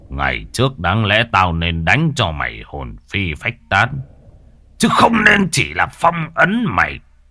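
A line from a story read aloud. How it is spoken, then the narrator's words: Laughing, defiant. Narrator (Vietnamese): Thầy Mạnh cười lớn, giọng đầy thách thức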